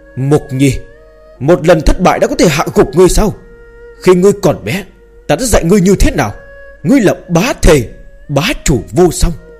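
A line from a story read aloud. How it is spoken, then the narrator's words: Grave deep shout. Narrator (Vietnamese): Trường Thôn sắc mặt hết sức nặng nề, trầm giọng hét lớn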